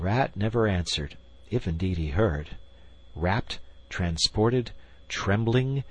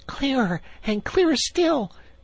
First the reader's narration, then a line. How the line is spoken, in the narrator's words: cried the Rat joyously